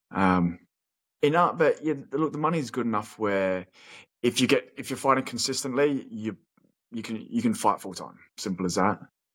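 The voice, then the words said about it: Australian accent sounding somewhat English. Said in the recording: “What's up with your accent? ... always sound like a bit of a pom ... I get asked if I'm Pom”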